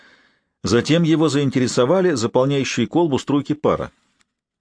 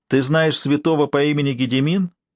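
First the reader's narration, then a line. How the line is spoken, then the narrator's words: Snide question. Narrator (Russian): ехидно спросил Норман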